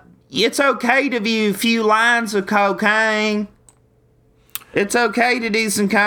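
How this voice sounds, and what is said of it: Usual voice. Nothing is said of it.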